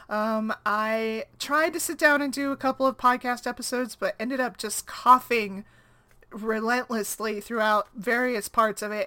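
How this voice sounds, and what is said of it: Low, froggy, sick-sounding voice. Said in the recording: “I've been sick, and I don't know if you can tell from my voice, it's a little bit lower and froggier than it normally would be.”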